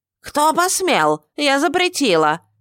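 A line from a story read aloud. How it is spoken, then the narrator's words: Hysterical shriek. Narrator (Russian): истерично взвизгнула хозяйка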